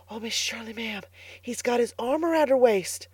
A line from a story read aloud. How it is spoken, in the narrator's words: whispered Carlotta the Fourth delightedly